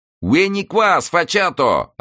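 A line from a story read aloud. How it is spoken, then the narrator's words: Yelling in Tuscan dialect. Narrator (Russian): орал ему вслед Дон Франсиско на чистом тосканском диалекте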